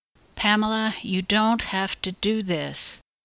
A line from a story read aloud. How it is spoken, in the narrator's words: I pleaded quietly when I noticed Jason sniffing the ground about 10 feet away